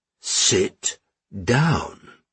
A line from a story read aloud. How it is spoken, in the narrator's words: the Count repeated more slowly